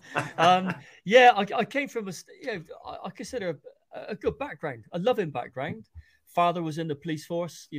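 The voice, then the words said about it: Bristol English accent. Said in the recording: “born in Bristol, accent. So we've got a language barrier straight away”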